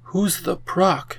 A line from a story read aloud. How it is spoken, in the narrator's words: whispered